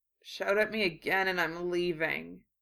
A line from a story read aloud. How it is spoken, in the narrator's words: he mumbled